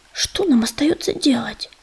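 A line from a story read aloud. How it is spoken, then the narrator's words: Whispered in ear. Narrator (Russian): прошептал он на ухо ежевике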